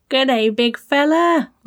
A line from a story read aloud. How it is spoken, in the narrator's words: Zack yelled